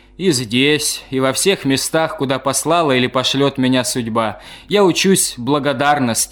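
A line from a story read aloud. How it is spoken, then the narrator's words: Plain. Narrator (Russian): сказал философ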